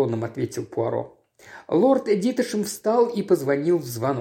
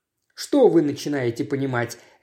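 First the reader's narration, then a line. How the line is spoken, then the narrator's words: Sharp interruption. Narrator (Russian): резко перебил его Дитешем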